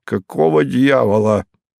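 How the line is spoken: Angry husky question. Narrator (Russian): за дверью сердитый сипловатый голос осведомился

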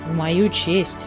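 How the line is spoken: Gloomy remark. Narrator (Russian): мрачно заметил Муми-тролль

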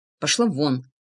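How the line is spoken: Muffled snapping retort. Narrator (Russian): огрызнулся Влад из-под ладони

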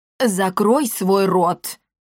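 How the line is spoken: Sharp shout. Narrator (Russian): прикрикнул Парацельс

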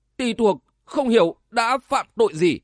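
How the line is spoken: Old man's trembling question. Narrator (Vietnamese): Lão già áo đen bỗng ngẩng đầu lên, cất giọng run run hỏi lại

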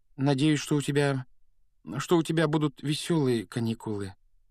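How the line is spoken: Hesitant, stunned. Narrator (Russian): Неуверенно выдавила Гермиона, явно пораженная нелюбезностью дяди Вернона

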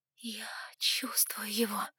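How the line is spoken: Whispered. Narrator (Russian): прошептала

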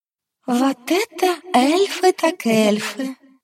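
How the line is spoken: Nervous giggle. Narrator (Russian): нервно хихикнула в мысленном чате Альва

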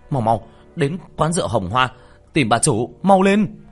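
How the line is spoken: Alarmed shout. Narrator (Vietnamese): Sắc mặt tiểu thất đại biến, hét lên

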